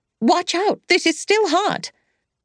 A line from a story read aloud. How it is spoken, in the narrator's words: Anglin cried